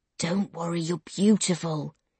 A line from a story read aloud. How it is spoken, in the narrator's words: he whispers